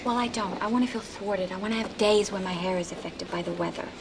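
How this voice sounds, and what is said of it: Adopted American accent. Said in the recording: “In her real life, Nicole Kidman speaks with an Australian accent, not the American voice she often adopts on screen”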